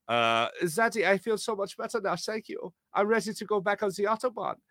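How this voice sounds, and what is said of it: Weak put-on German accent. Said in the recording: “I gave him this voice. It's not really a good German accent, but I gave him this voice.”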